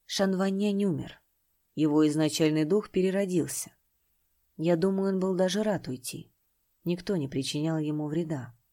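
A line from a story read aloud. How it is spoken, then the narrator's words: Deep sigh, quiet. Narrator (Russian): Чинтянь глубоко вздохнул и тихо произнес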